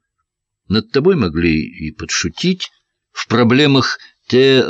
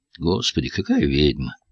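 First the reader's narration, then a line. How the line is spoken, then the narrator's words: Tired. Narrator (Russian): сказала Диана устало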